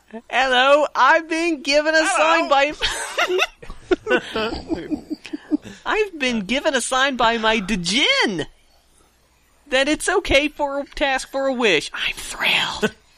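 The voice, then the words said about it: Put-on British accent. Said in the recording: “I need to bust out my British accent ... please keep reading in your British accent.”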